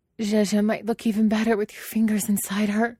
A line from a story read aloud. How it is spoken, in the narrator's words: she pants